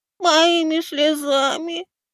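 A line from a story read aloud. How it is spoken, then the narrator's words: Squeaky. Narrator (Russian): пропищал я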